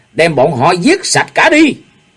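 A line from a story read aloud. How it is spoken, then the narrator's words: Loud shout. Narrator (Vietnamese): Nhạc phu nhân lớn tiếng kêu to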